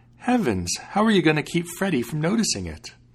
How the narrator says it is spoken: she saw the accident and cried out

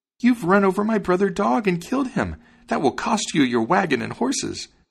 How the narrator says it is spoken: exclaimed the sparrow

